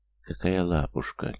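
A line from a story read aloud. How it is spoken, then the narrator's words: Quiet woman's voice. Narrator (Russian): тихо произнесла женщина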